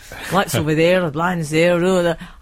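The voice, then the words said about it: Put-on Scottish accent. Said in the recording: “So he was Scottish. Let's do the accent.”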